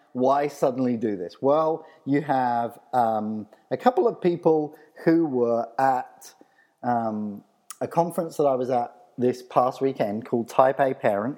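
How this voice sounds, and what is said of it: Texan accent. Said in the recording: “they were teasing me because of my accent, as you can tell. I'm from Texas.”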